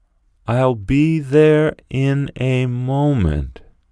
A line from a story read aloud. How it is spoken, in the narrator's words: said Gregor slowly and thoughtfully